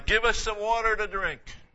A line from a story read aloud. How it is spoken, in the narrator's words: They cried